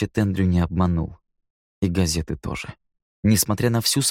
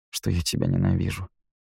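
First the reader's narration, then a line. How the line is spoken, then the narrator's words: Muttered. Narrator (Russian): пробормотал Нил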